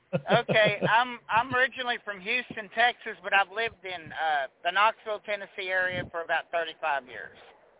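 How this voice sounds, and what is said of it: Southern US accent. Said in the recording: “You sound like you're from down south somewhere... You go first with the accent.”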